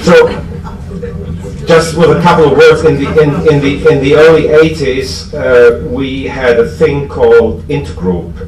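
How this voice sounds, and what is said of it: German-accented English. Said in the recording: “my German accent, it sounds more bureaucratic”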